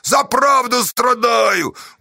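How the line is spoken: Martyred shout. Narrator (Russian): мученически крикнул он

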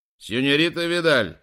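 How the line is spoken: Shout. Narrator (Russian): закричал Диас

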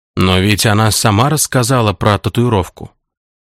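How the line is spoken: Muttering. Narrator (Russian): бормотал вампир

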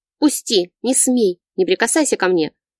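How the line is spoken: Yelling and barking. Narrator (Russian): Заорала я и рявкнула

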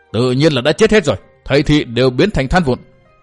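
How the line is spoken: Old man's furious loud shout. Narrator (Vietnamese): Lúc đó lão đã tức giận rồi, thế nên bây giờ khi nghe Nguyên Bình nhắc đến, lão ta bỗng giận dữ hét lớn

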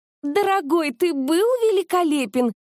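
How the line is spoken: Excited squeal. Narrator (Russian): взвизгнула она

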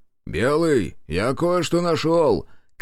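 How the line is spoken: Shout. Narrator (Russian): крикнул Тимофей

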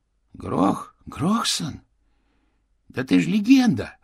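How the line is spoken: Exclaimed. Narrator (Russian): воскликнул

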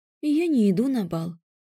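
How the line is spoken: Even voice. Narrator (Russian): сказала ровным голосом

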